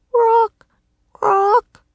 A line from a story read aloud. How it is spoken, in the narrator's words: croaked the raven